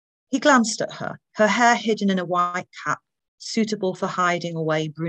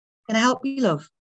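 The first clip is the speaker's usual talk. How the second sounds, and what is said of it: Soft voice, slight northern accent. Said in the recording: “A soft voice, a slight accent of northern roots”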